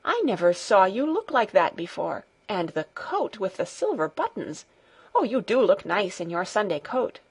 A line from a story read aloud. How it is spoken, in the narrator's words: she exclaimed